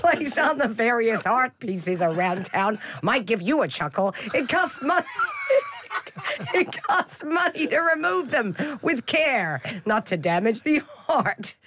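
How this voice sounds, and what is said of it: Put-on American accent. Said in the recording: “I would like to hear you do that quote in an American accent.”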